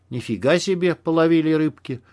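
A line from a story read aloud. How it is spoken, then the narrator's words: Breathless, spluttering exhale. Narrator (Russian): выдохнул Макс, отплевываясь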